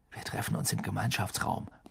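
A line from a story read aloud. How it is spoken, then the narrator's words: Murmured. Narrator (German): murmelte Harry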